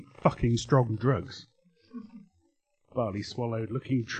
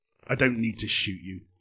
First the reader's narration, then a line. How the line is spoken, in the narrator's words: he growled